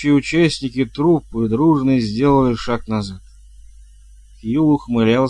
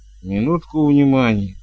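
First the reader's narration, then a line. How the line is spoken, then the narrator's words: Weary. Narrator (Russian): устало выговорил Том Джон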